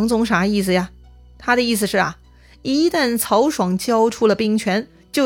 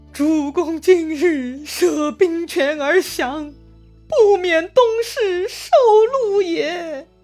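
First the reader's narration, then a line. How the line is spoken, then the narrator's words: Loud wailing. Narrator (Chinese): 曹爽的主簿杨宗呢，大哭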